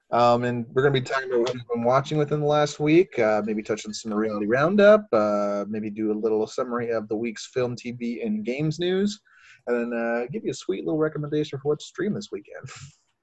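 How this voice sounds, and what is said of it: 1940s radio announcer voice. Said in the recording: “I'm trying out a new voice ... Gross ... I'm going to try to do a 1940s radio voice”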